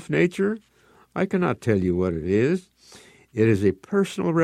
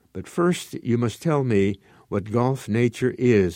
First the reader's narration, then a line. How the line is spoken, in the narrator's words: Ugo said